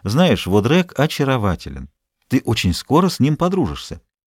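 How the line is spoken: Convinced tone. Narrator (Russian): прибавила убежденным тоном

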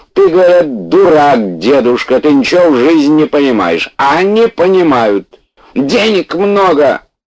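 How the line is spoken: Shouting old man. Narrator (Russian): дед уже кричал

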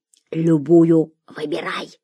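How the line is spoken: Whisper. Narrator (Russian): шепнул Гия

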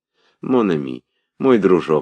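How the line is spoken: Pleading voice. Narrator (Russian): сказала мать умоляющим голосом

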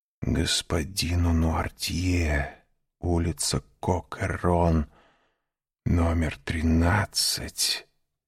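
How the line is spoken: Frightened whisper. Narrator (Russian): прошептал он, побледнев еще сильнее

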